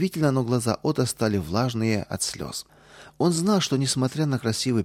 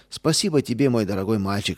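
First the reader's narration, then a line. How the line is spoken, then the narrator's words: Plain. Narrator (Russian): сказала она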